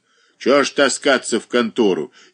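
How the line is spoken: Rude angry interruption. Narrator (Russian): еще более грубо перебил ее сердитый голос

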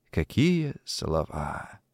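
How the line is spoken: Whispering. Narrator (Russian): прошептал Конопатый

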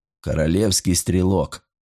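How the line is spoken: Calm, matching the other's tone. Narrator (Russian): спокойно продолжил бригадный генерал в тон своему собеседнику

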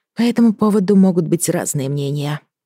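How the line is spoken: Sighing. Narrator (Russian): вздохнула я

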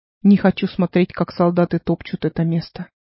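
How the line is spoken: Muttering man. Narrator (Russian): бормотал мужчина

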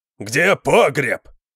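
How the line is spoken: Roaring. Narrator (Russian): проревел Конан

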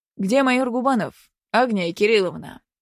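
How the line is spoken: Blunt, demanding. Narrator (Russian): Без обиняков начал полковник требовательным голосом

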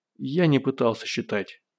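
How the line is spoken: Sighing. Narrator (Russian): вздохнул Родионов

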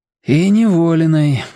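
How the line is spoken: Sigh. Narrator (Russian): вздохнул Борис

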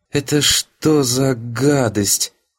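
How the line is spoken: Strained, choked out. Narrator (Russian): Только и выдавила из себя воспитательница

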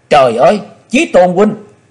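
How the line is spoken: Anguished scream. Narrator (Vietnamese): tiếng thét

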